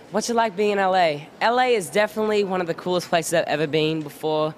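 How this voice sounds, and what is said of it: Australian accent. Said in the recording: “So you're from Australia. ... I definitely what? am from Australia. You can tell by my accent.”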